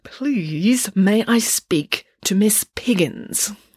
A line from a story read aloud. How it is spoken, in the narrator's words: The doctor took a deep breath and through gritted teeth said